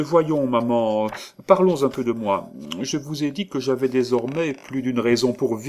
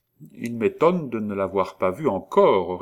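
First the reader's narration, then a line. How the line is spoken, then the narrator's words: Plain. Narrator (French): répondit-il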